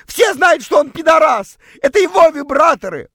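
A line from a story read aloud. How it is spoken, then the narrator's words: Shouted. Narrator (Russian): против всякой логики прокричала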